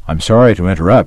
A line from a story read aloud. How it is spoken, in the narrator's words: said